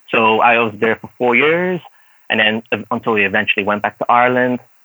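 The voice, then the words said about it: Mixed, hard-to-place accent. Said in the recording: “my accent now is, I don't know, people say it's really uh, mishmash ... They can't really pinpoint exactly where my accent is”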